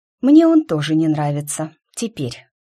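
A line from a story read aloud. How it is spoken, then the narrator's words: Very calm. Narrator (Russian): сказала я максимально спокойно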